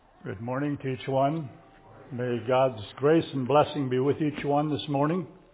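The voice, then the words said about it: Voice slightly affected by a cold. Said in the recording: “my voice is a little bit with a cold yet”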